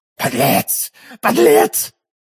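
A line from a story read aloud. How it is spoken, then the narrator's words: Growling. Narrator (Russian): рычала миледи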